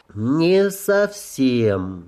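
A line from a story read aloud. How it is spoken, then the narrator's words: Slow, careful. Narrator (Russian): медленно произнес Аарон, осторожно подбирая слова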